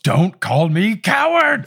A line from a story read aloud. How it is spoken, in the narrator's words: Snape yells